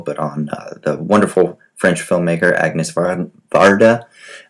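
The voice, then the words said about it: Attempted French accent. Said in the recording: “I was going to try to do a French accent there”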